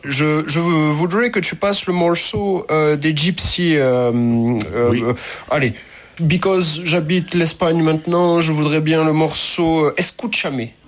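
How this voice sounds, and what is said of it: Put-on English accent. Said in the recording (French): “je vais reprendre mon accent anglais”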